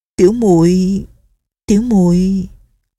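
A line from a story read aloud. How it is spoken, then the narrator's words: Embarrassed stammer. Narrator (Vietnamese): Nghi Lâm thẹn đỏ cả hai má, ấp úng nói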